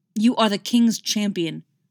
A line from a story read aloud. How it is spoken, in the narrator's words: snapped Jonathan